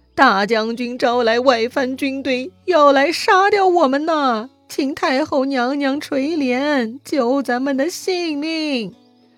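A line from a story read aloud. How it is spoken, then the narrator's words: Tearful, sobbing. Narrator (Chinese): 他们哭哭啼啼说呀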